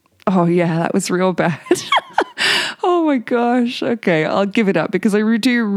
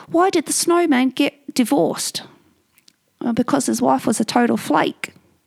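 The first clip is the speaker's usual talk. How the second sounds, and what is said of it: Attempted New Zealand accent. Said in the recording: “I can't do it in a Kiwi accent though, Tia, I'll try.”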